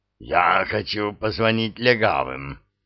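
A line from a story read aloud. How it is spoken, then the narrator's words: Hoarse, strained. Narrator (Russian): хрипло выдавил Иган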